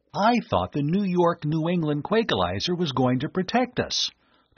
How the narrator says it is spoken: the young inventor exclaimed

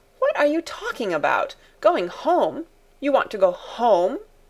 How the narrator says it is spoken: exclaimed Fräulein Rottenmeier, her anger rising

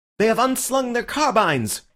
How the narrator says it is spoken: cried Bull, dancing with excitement

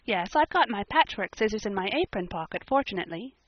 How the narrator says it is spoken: said Anne

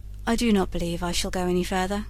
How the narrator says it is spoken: said he sullenly

